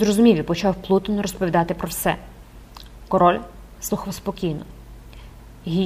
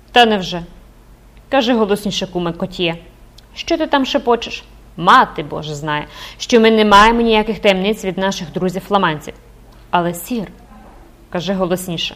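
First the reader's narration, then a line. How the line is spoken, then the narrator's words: Exclaimed with loud laughter. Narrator (Ukrainian): Людовік XI, зареготавши, вигукнув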